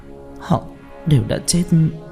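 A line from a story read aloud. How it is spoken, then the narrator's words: Dazed whisper. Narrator (Vietnamese): Đặng Tuệ thất hồn lạc phách thì thào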